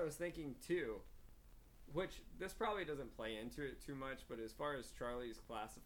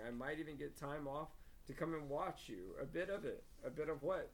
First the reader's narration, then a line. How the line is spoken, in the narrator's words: said Ron